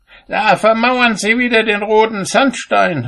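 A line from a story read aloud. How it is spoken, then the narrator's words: Called out. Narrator (German): rief er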